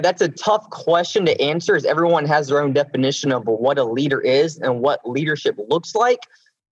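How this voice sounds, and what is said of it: Southern American accent. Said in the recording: “my Southern accent ... South Carolina gentleman's”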